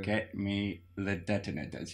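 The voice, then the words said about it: Poor Alan Rickman impression, tight lips. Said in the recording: “Alan Rickman talking mostly without his lips touching his teeth in that way he does ... a poor Alan Rickman impression ... just by not having your lips”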